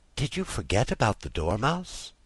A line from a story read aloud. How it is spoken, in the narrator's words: she said timidly